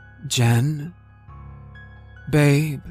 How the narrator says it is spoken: I called out the words coming out as mere whispers

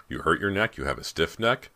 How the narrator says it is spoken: Brant's father demanded, his voice clogged with sleep

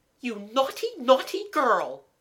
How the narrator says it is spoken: she cried angrily

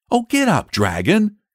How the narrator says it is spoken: cried the boy piteously

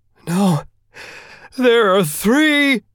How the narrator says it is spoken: the minister cried, tears flowing from his face

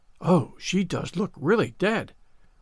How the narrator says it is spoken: whispered Ruby Gillis nervously

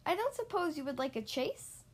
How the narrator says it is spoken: laughed with glee

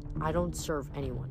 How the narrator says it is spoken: Nico muttered

